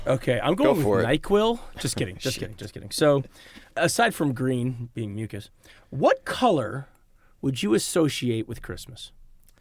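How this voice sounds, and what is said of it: Husky sick-sounding voice. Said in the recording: “I have my bedroom voice today... I'm friggin' sick... a little bit of a cold”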